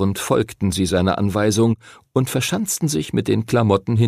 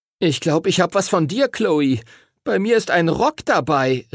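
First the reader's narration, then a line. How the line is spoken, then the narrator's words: Horrified shout. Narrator (German): rief Timothy entsetzt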